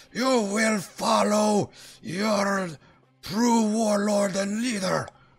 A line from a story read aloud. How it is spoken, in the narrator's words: Zardarok screams this at the Dwerger allies